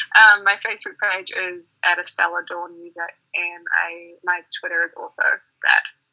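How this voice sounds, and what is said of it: New Zealand accent. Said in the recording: “I know my accent, people think that I'm saying all sorts of other stuff... by way of New Zealand”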